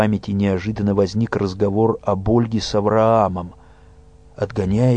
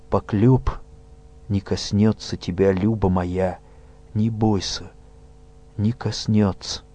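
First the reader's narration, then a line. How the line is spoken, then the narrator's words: Tender whisper. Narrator (Russian): прошептал нежно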